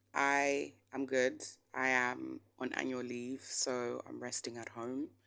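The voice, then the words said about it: Slightly hoarse, tired voice. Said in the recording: “My voice is a bit hoarse today because I'm a bit tired and a little bit fatigued.”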